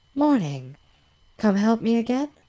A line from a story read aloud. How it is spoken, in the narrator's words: she asks cheerfully